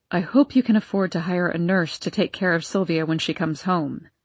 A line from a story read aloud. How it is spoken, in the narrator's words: said Aunt Elspeth in a flat, uncaring tone